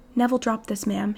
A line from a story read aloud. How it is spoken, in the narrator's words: he murmured